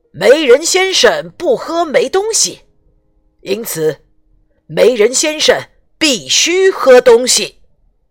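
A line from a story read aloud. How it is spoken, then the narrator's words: Desperate shout. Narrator (Chinese): 巫师拼命大喊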